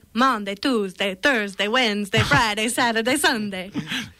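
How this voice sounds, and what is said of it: Tom Hanks impression, counting weekdays. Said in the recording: “She does her Dracula weekday count. ... That was actually me doing an impression of Tom Hanks in You've Got Mail.”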